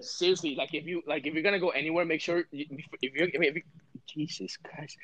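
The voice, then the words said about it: Stuttering, halting speech. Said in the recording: “why are you stuttering?”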